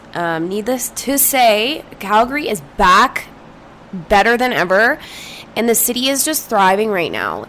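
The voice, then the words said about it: Hoarse, strained, nearly lost voice. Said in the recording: “my voice sounds a little crazy ... I have lost my voice.”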